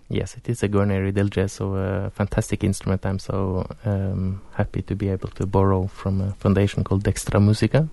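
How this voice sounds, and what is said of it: Norwegian accent. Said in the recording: “Is from Norway, which is why he has such a beautiful accent.”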